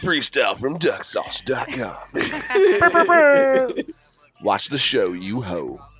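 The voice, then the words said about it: Radio voice. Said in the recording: “radio voice”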